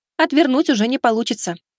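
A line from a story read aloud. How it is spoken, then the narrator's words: Brisk report. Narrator (Russian): также бодро доложила напарница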